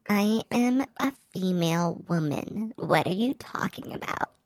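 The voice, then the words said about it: High-pitched chipmunk-like girl voice. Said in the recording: “You don't really sound like a girl. You sound more like a chipmunk. ... Why do you enunciate your American accent when you do that? ... valley girl”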